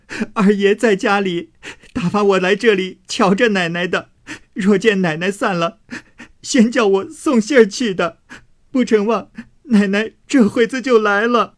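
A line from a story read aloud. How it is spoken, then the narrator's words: Frightened girl crying. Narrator (Chinese): 那小丫头子先还犟嘴，后来听见凤姐要烧红了烙铁来烙嘴，方哭道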